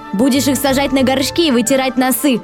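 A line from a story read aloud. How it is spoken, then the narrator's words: Shouted. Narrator (Russian): выкрикнул Сашка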